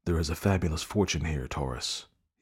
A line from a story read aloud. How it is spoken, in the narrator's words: he whispered